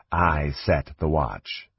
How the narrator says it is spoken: Slith said in an undertone

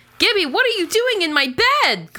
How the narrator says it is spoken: Carly yells

